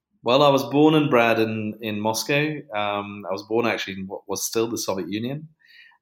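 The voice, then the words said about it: British accent. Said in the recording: “a British accent”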